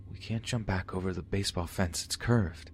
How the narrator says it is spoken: whispered

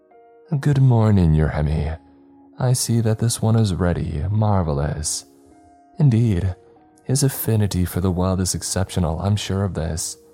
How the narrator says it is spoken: said the man called Your Hemi, in a rather breathy voice

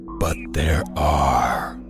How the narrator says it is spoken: Annabeth's dragon whispered

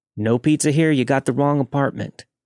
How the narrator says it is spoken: I quickly replied

